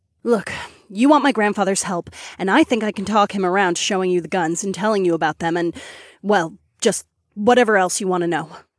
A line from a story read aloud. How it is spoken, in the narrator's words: Freya blurted out breathlessly